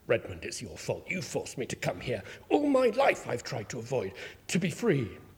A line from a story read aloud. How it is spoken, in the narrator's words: Marcelin muttered